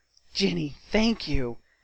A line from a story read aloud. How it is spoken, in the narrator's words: Eloise breathed